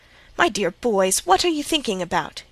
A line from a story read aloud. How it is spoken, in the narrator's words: exclaimed Mrs